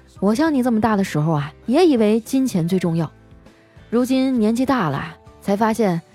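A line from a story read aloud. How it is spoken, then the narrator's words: Sighing. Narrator (Chinese): 我叹了口气啊，说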